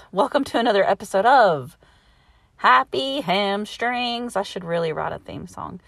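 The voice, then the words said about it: Slightly out of breath. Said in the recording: “I'm a bit out of breath.”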